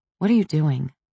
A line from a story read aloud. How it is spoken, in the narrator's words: I asked